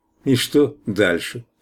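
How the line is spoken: Indifferent question. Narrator (Russian): спросил равнодушным голосом

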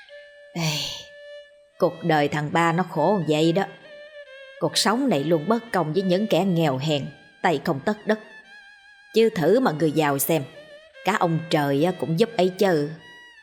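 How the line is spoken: Sighing villager. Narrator (Vietnamese): Người trong xóm rẫy này khi nghe thấy tiếng đàn thì lại thở dài mà nói

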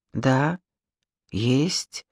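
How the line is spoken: Quiet confession. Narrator (Russian): тихо призналась Маша

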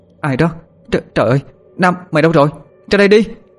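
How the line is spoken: Frightened calling out. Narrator (Vietnamese): Cô ta vừa gọi, mắt mũi bắt đầu tái mét sợ hãi

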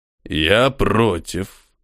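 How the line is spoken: Calm. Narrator (Russian): спокойно произнес один из людей храма смерти

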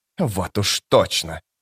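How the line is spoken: Hiss. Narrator (Russian): прошипел Пуллик

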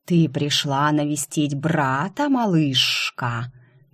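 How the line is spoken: Hiss close to ear. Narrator (Russian): прошипела у меня над ухом

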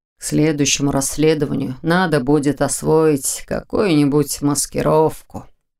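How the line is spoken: Mumbling. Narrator (Russian): пробормотал

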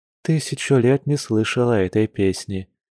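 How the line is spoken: Soft. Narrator (Russian): мягко произнесла Маша

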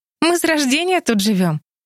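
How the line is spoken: Laughing. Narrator (Russian): засмеялась Энни

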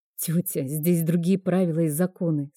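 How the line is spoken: Plain. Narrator (Russian): сказала я

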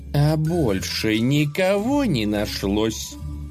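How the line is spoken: Menacing question. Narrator (Russian): грозно спросила она

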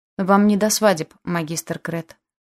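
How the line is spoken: Cold, clipped. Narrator (Russian): холодно и чеканно произнес Аш

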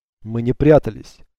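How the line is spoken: Irritated reply. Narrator (Russian): раздраженно ответил Альтаир

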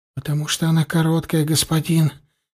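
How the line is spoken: Barely audible. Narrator (Russian): еле слышно отвечал Варак

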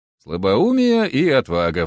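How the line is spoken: Sighing. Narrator (Russian): вздохнул я

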